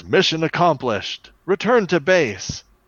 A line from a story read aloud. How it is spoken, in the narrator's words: he yells